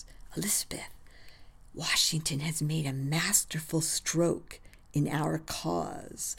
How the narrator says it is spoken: Hal whispers

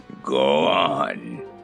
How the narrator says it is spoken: growled the Grand Galliput

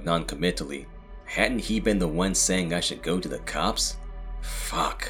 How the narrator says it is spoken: I growled under my breath

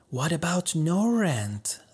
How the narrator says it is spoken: the old woman whispered in Homa's ear

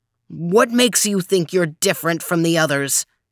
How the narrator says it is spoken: he shouted

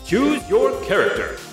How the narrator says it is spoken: this loud, booming voice say

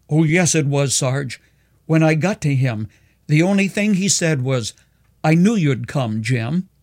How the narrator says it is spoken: Gasping for breath, the soldier cried

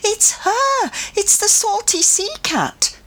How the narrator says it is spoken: a woman in the next car cried excitedly

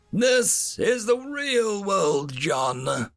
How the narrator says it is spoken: Darth Hominus wheezed

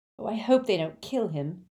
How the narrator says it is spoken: groaned Hermione

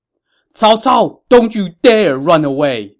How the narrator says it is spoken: Ma Chao shouted

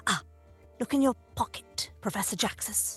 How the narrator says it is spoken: whisper in his ear

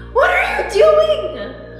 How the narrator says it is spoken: He shrieked

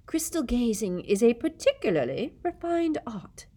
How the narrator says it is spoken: she said dreamily

